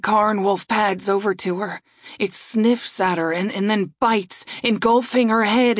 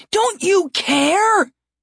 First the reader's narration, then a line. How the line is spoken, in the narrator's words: I scream at them